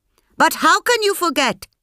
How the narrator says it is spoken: shrieked her mother-in-law

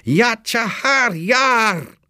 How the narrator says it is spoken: The men of Kabul shouting

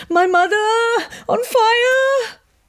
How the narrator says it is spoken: Kekashan shrieked

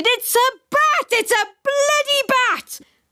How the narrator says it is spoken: screamed again and continued to scream

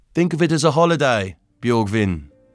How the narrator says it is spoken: said

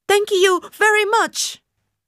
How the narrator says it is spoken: Panicking, I shouted

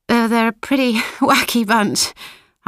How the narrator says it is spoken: say and laugh

